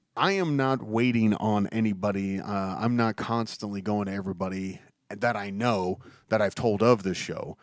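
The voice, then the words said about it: Congested, deeper voice from blocked sinuses. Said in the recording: “you may have noticed my voice is a bit different. And that's because when the weather changes, my sinuses get blocked up. So I sound more like I should be narrating a truck commercial.”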